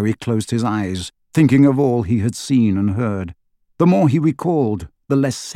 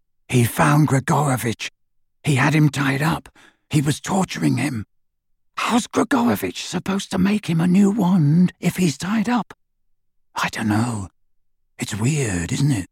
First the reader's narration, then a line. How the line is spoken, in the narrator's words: Harry whispered into the darkness